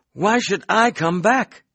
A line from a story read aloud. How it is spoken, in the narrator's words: I cried